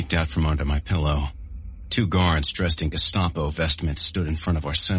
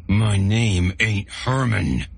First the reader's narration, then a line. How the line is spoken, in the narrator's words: he growled